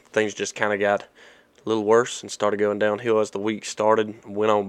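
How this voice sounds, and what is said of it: Rough, raspy voice. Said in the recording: “hear by my voice, a little bit rough. It's been a little raspy”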